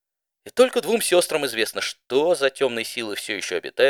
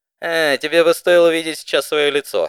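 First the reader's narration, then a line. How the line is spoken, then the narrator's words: Laughing. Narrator (Russian): рассмеялась Спитфайр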